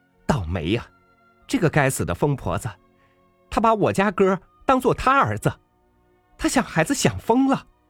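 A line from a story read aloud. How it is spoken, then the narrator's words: Landlady's displeased shout. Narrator (Chinese): 房东太太很不高兴的喊道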